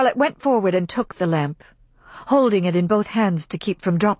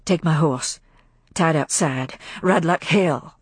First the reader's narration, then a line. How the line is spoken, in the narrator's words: half-whispered words of Rhett